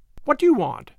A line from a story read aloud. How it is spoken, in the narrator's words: asked sharply